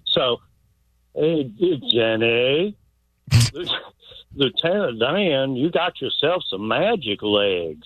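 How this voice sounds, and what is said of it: Forrest Gump character impression. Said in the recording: “I can do a Forrest Gump right quick ... Pretty good ... I know what a good impression is”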